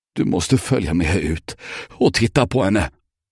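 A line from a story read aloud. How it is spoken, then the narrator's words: Trembling voice. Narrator (Swedish): sa Albert med darrande röst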